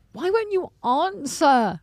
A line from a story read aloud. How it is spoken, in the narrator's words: Liz yells